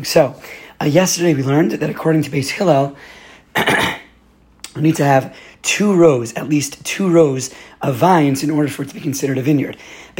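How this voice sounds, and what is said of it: Weak, strained voice. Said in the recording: “as you can hear, I did lose my voice over Shabbos, so I'm going to be as clear as I can, as loud as I can”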